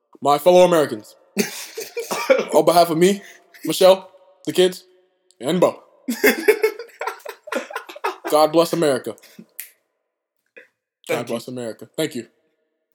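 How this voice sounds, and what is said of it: Imitates another person's voice. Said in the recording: “I would love to see Chadwick do that accent”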